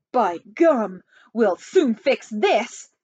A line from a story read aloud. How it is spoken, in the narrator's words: snapped the president